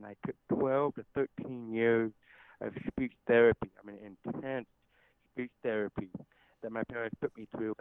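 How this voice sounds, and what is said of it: Deaf accent. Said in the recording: “you can probably notice my deaf accent ... I still have that accent”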